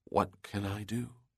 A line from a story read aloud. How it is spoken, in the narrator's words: She asked softly